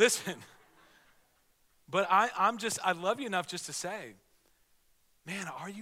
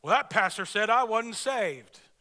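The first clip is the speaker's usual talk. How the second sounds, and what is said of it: Mock southern accent. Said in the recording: “Especially if you have a southern accent, you'd say it like that.”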